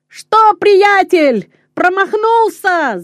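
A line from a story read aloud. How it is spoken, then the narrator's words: Shouting. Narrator (Russian): закричал Петер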